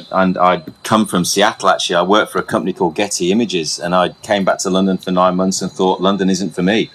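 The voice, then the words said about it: English accent. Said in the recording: “Where's your accent come from? ... I'm from England.”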